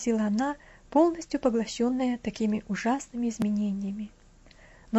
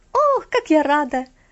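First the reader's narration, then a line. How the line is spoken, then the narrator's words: Joyful exclaim. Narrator (Russian): радостно воскликнула она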